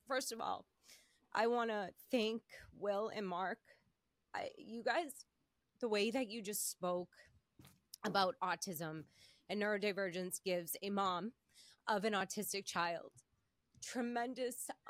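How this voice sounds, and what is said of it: Emotional, choked-up speaking voice. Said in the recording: “I'm getting emotional. ... I'm so sorry, I'm so emotional”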